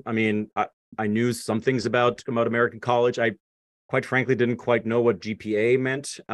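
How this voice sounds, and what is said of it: Strong non-native accent. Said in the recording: “my accent was still pretty strong, like this”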